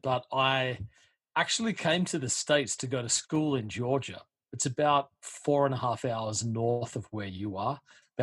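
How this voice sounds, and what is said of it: Australian accent. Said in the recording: “you're not from around here, judging by your dialect ... I'm originally from Australia”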